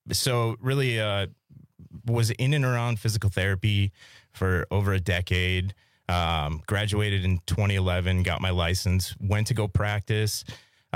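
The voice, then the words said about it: Polished radio-announcer voice. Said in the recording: “you have a voice for radio ... You have a fantastic radio voice.”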